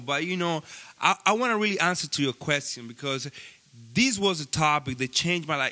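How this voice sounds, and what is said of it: Speaks with a noticeable accent. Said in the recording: “You got the fucking accent. You got the fucking bilingual.”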